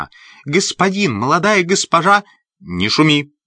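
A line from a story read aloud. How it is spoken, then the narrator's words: Sharp scolding. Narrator (Russian): прикрикнула на нее Эллен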